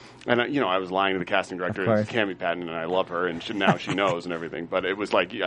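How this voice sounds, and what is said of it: Usual voice. Nothing is said of it.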